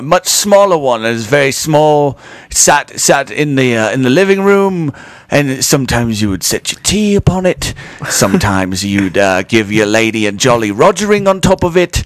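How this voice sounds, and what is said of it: Put-on British accent. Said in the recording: “If we're going to do British accents, I'm just going to do this one.”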